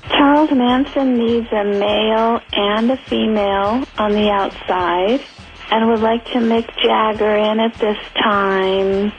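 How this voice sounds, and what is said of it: Impression of a crazy lady. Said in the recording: “Got a lot of crazy lady impressions. ... pretty good. ... Seem to love her, and they seem to have her down. ... That was an impression.”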